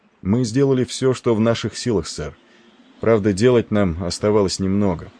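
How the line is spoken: Calm speech. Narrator (Russian): проговорил спокойно Николс

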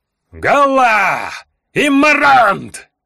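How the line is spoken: Roaring elves. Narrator (Russian): Взревели эльфы

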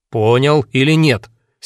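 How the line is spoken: Angry speech. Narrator (Russian): сердито говорил Аким Ильич

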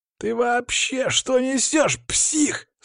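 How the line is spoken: Yelling again. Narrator (Russian): Снова заорал один из них

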